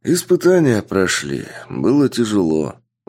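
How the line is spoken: Sighing. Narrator (Russian): вздохнул мужчина

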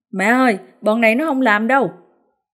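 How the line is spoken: Loud shout. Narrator (Vietnamese): Thiền hét lớn

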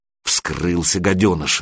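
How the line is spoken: Angry retort. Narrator (Russian): злобно бросил второй

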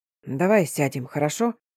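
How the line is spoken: Whispered in ear. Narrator (Russian): зашептал на ухо Стефан

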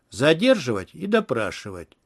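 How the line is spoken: Cold declaration. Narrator (Russian): Квинси холодно заявил

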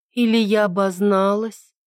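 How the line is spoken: Drawling. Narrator (Russian): протянула Тиана

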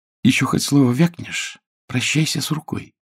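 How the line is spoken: Whisper. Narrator (Russian): прошептала

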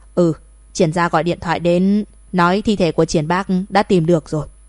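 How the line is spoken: Cold woman's voice. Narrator (Vietnamese): Thẩm phu nhân lạnh lùng nói

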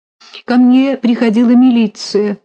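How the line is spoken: Sobbing. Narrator (Russian): прорыдала Федина сестра

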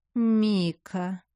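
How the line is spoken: Drawn-out. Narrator (Russian): протянула гостья

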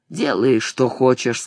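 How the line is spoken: Dejected. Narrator (Russian): сказал уныло

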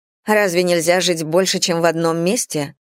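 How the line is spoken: Slightly irritated question. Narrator (Russian): спросила Роза чуть раздраженно, потому что много где жила, имела много увлечений и много чем занималась

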